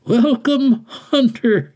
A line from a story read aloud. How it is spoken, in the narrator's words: said and chuckled